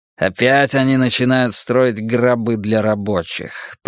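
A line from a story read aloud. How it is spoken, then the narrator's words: Grumbled. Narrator (Russian): проворчал Десмонд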